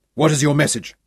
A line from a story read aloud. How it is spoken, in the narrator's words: Sean snapped